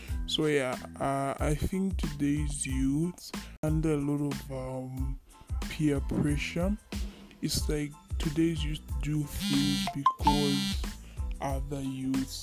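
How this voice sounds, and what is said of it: Congested voice from a cold. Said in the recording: “sorry about my voice. ... It's just a common cold. I have a flu.”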